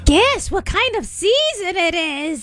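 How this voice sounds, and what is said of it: Witch voice. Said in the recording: “It's my witch voice. Did you hear my witch voice?”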